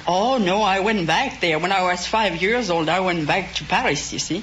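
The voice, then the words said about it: French-sounding accent. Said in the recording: “judging from your accent, you must have remained in France ... You just didn't get an accent from spending 2 weeks in France.”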